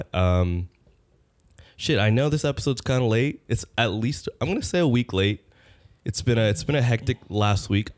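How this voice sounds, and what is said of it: Sick, nasal, croaky voice. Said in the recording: “I'm very very sick... my voice sounds very uh... Nasally... croak”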